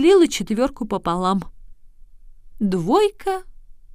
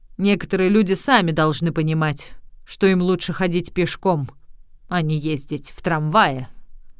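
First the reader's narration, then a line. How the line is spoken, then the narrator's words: Grumbled reply. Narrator (Russian): Вагоновожатый проворчал в ответ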